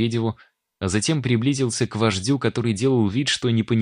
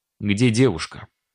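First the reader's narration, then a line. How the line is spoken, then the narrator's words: Stern question. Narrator (Russian): строго спросил я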